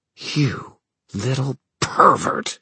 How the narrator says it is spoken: she hissed, all pretense at smirking gone

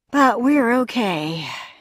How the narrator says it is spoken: he sighed

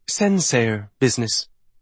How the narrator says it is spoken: he answered in a light, sweet voice

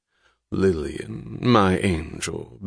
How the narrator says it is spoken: Balfe Eubank drawled

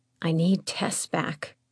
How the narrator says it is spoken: whispered

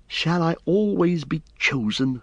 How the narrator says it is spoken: she said bitterly

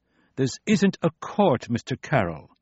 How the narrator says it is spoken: the dean said testily

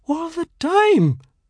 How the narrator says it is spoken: Padma wails angrily

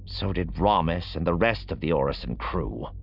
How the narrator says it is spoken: Roscoe growled

